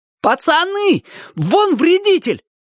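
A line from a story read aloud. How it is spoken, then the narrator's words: Sudden shout. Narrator (Russian): вдруг крикнул кто-то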